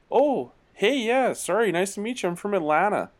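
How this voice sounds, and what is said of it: Put-on Canadian hockey accent. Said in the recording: “that hockey accent is awesome. That, to me, that used to be just Canadians ... you just develop that accent.”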